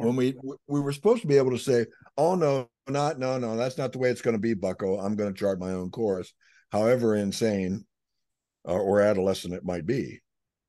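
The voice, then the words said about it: Slightly hoarse voice. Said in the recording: “I'm a little bit hoarse, so I've put a cough drop in.”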